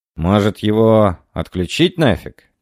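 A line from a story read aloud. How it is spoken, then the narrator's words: Heavy sigh. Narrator (Russian): тяжело вздохнул Андреас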